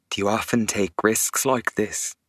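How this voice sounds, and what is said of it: Low, serious voice. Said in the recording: “in a low, serious voice”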